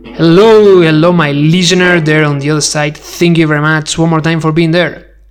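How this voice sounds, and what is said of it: Spanish accent in English. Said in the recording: “I'm not English speaker. I do speak English, but I'm Spanish ... my accent is really good, thank you very much, I know, but it's not that perfect”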